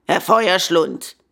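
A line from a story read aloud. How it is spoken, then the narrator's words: Gruff retort. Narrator (German): gab barsch zurück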